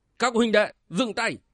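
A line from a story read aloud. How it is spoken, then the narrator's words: Loud shout. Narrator (Vietnamese): Bộc Dương Duy quát to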